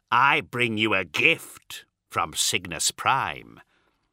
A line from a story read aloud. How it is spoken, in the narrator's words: he said, a sneer buried in the words